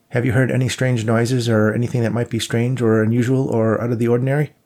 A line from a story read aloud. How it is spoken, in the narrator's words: he just blurted out